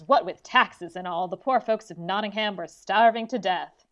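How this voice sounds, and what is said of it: Bad put-on Southern US accent. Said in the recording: “Apologies for my half-assed Southern accent.”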